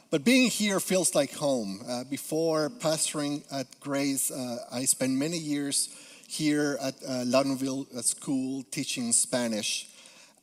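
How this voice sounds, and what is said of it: Peruvian Spanish accent. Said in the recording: “I am originally from Peru, so you may detect a little accent ... It is my accent.”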